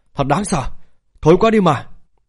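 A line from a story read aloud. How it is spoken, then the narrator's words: Frightened, after retching. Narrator (Vietnamese): nôn khan một trận, vẻ mặt sợ hãi nói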